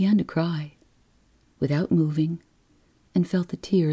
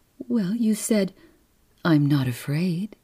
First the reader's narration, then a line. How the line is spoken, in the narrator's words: the nurse said soothingly